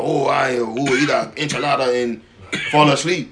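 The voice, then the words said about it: Put-on Mexican accent. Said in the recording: “to use a Mexican accent”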